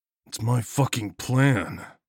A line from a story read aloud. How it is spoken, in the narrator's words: I growled